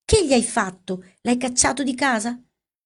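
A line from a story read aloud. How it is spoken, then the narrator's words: Dismayed exclamation. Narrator (Italian): diede in un'esclamazione di sgomento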